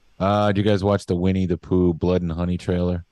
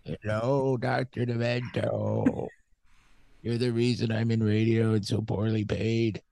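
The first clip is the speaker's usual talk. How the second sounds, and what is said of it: Old man voice. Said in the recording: “In your old man voice.”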